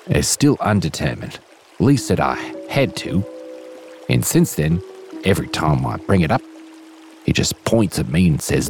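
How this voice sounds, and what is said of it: Inconsistent Australian/New Zealand accent. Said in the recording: “with an at times passable, but mostly wildly inconsistent Australian / New Zealand accent”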